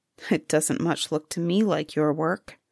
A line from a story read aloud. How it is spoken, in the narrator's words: the king's son, as he folded the embroidery, muttered to himself